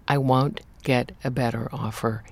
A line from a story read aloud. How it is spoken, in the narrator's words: he said firmly